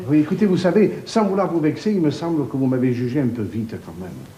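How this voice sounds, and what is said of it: Marseille French accent. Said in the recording (French): “l'accent que j'ai? ... les Marseillais”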